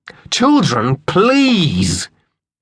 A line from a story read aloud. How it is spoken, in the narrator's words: his mother called angrily for peace